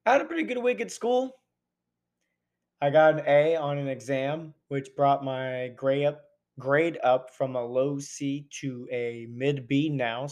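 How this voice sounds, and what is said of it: Weak, recovering hoarse voice. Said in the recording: “losing my voice for the most part, though it's slowly coming back”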